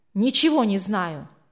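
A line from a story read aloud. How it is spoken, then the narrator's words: Irritated. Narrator (Russian): раздраженно ответил тот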